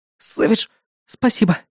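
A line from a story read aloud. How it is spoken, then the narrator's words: Breathed out. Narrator (Russian): выдохнула она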